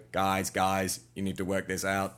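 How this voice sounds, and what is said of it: Weird robot character voice. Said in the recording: “still got that weird voice... you still must have that weird robot voice”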